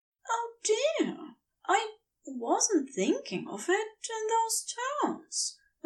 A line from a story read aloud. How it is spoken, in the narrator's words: Aziraphale said quietly